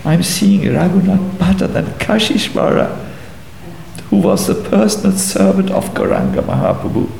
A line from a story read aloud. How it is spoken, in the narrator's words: Sobbing, said